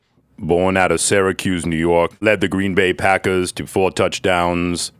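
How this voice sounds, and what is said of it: John Facenda NFL narrator impression. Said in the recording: “John Facenda is the voice of the NFL. Do a John Facenda voice for us. ... That's John Facenda,”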